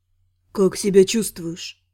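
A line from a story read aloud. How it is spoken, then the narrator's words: Quiet question. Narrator (Russian): Спросил тихо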